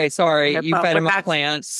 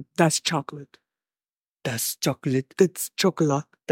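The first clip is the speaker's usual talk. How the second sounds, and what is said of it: Imitates another person's voice. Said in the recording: “That's a good impression.”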